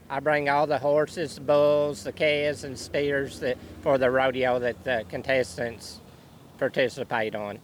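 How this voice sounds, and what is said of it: Thick regional accent. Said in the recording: “This gentleman's got a thick accent.”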